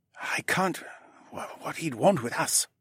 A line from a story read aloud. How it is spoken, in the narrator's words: her husband murmured back